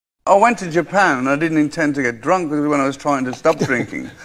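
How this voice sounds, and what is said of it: Brummie accent, monotone, elongated vowels. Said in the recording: “The Brummie accent has elongated vowels and has been described as monotone with a downward inflection at the end of sentences.”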